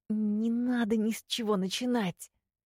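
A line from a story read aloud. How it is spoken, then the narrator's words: Hissing. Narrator (Russian): зашипела я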